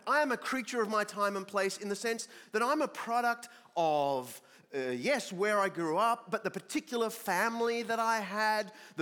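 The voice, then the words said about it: Australian accent. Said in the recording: “Australia. And the thing that gives it away instantly is this funny accent”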